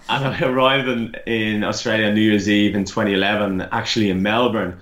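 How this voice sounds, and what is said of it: Irish accent. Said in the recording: “I'm originally Irish, if anyone hasn't guessed by my accent.”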